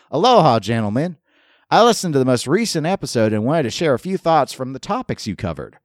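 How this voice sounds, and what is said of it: Put-on Southern US accent. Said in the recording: “use a Southern accent”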